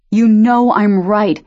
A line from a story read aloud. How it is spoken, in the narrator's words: Cam shouted, not fighting back at all